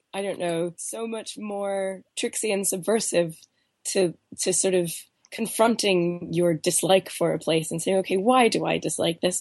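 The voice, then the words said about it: Congested voice with a cold. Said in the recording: “I still have this cold. My voice sounds. ... you're very bravely doing this through a cold ... I'm finding all these new nooks and crannies in my voice”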